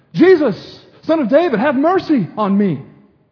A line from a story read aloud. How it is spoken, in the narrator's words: he called out